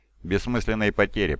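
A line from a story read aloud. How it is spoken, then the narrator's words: Mutter. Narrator (Russian): пробормотал волчий лорд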